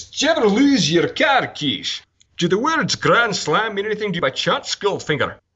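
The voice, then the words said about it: Imitates another person's voice, Scottish accent. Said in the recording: “I was going to do Sean Connery ... Scottish accent”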